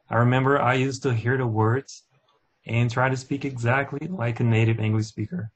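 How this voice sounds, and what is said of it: Non-native English accent. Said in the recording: “it's pretty hard to sound like a native... I don't try to lose my accent anymore. I just accept the way I talk”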